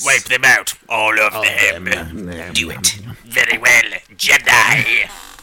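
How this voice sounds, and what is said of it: Sinister evil villain voice. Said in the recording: “I'll just talk like a sinister man ... Palpatine's here ... it's easier on my throat to talk like an evil guy ... you're using a different part of your vocal cords”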